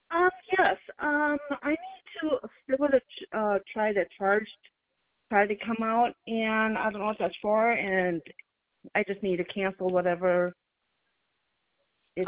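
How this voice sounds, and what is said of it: Speaks very fast. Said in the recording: “said it so fast”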